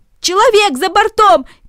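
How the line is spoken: Shouting. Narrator (Russian): кричали одни

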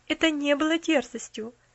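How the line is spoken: Calm objection. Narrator (Russian): спокойно возразила миссис Сноу

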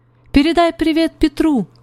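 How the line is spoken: Shouted. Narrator (Russian): крикнула она Зузи

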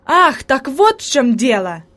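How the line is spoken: Exclamation of realization. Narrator (Russian): воскликнул Себастьян, понимая причину появления привидения

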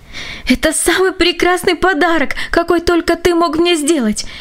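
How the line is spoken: Exclamation. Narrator (Russian): воскликнула она

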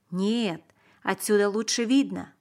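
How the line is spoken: Plain. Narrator (Russian): сказал Давид

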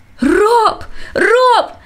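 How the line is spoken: Frantic scream. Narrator (Russian): закричал он, словно обезумев

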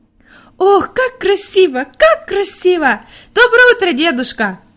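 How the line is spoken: Joyful shouting child. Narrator (Russian): радостно кричала Хайди

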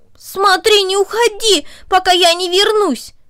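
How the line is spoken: Shouted. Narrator (Russian): он крикнул Корнели

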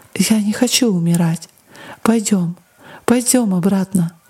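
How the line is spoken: Repeated through tears. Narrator (Russian): сквозь слезы повторяла

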